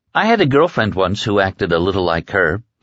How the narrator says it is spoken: Lucy said

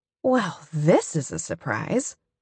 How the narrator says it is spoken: I say, slurring a little

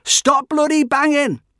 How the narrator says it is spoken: I was forever yelling

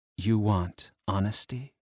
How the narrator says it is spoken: she whispered, voice husky

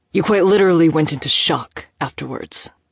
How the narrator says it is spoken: Moses snapped, immediately regretting his sharp tone

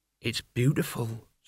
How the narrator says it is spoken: said Mort softly

